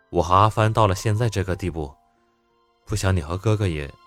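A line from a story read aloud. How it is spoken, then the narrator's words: Calm, soft. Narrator (Chinese): 温之夏神色淡定，轻声的打断了他的话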